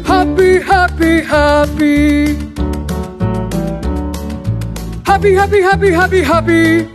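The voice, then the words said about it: Singing in a low voice. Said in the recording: “try a low voice”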